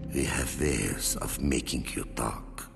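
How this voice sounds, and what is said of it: Inconsistent lame fake accent. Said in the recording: “would you pick an accent and stick with it? ... his lame accent”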